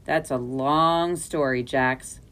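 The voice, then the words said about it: Weary voice. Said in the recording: “in a weary voice.”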